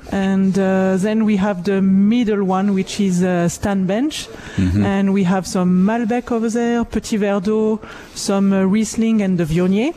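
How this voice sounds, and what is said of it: French accent. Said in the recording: “People can probably tell by your accent that you're not Canadian ... your background is from France”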